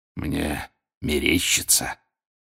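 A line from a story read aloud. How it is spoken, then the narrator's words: Hoarse rasp. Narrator (Russian): вновь захрипел Грюм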